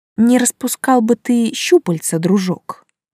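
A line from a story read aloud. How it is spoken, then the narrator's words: Hissed through teeth. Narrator (Russian): процедила сквозь зубы я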